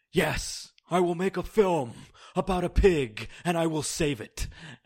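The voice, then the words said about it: Imitates another person's voice. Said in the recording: “That's not my best impression”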